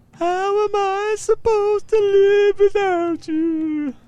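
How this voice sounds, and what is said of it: Exaggerated anguished singing voice. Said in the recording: “put on my most anguished voice”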